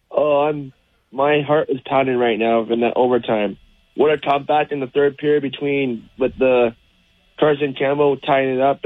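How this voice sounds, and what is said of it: Hoarse, worn-out voice. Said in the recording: “You sound like you're ready for bed. ... I'm losing my voice because I was yelling so much at the game”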